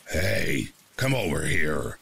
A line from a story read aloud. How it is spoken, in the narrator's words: growls